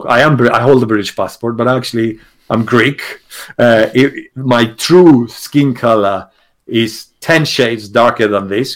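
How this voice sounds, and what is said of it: Non-native English accent. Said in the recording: “the moment people hear my accent, they realize that I'm not in English”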